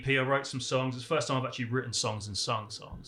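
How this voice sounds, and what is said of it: Charming accent. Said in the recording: “the accent ... It's so charming.”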